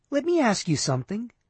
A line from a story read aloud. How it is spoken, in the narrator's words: she said softly